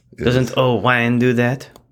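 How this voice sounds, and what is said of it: Put-on French accent. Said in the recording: “Do you not like my French accent?”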